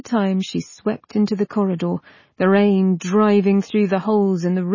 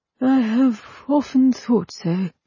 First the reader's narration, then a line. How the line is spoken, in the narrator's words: said sadly